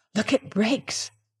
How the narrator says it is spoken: he whispered

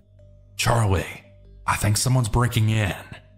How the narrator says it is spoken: I quietly whispered

